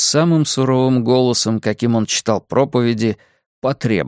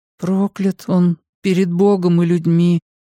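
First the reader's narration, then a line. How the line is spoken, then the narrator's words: Mumbled. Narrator (Russian): промямлил я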